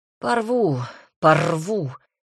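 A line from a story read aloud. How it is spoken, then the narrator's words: Noisy exhale. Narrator (Russian): Маркель шумно выдохнул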